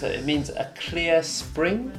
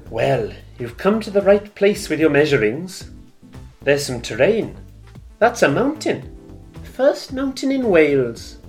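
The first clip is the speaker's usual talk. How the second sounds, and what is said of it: Welsh accent. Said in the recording (Japanese): “ウェールズ人のセリフはウェールズなまりで読んでいただきました”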